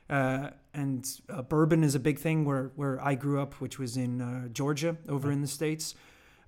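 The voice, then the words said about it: Strange, partly American accent. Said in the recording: “I was actually born in America, if you couldn't tell from my strange accent”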